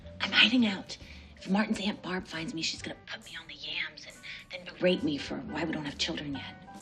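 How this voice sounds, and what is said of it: Whispering. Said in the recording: “Why are we whispering?”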